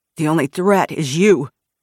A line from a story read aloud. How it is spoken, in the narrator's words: the guy snarled